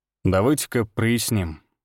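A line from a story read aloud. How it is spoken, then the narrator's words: Calm. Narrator (Russian): спокойно сказал Всеволод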